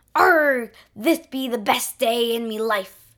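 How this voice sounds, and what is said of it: Unusual pirate accent. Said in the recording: “his very unusual pirate accent”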